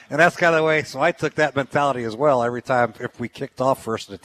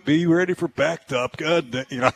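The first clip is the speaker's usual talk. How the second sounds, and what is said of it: Imitates another person's voice. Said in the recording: “you got a good impression”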